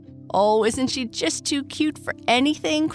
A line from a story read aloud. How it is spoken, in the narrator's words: cried Sally